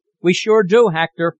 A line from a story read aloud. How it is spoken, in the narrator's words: somebody called out